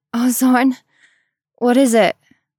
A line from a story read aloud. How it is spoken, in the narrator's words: Aram gasped